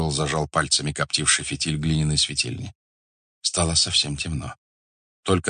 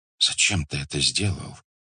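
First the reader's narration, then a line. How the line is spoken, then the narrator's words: Whisper. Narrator (Russian): прошептал Факих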